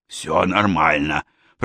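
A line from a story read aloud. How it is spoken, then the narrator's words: Hoarse, tearful. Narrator (Russian): прохрипела Аника, вытирая слезы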